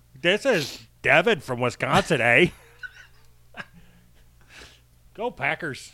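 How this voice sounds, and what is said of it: Put-on Wisconsin accent. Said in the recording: “I was pretty good at that impression right there ... as if I'm from Wisconsin”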